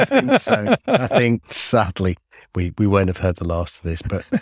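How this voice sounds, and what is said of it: Usual voice. Nothing is said of it.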